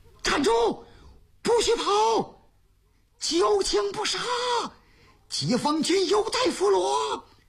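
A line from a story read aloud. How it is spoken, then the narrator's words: Shouting. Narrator (Chinese): 乔振山……冲着敌人喊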